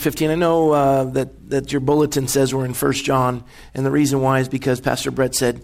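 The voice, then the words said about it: Strained voice, recovering from overuse. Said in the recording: “My voice is just recovering from Thursday, my son's football game... I was yelling”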